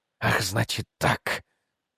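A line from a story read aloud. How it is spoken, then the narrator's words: Unexpectedly quiet. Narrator (Russian): уточнил Мастерс неожиданно тихо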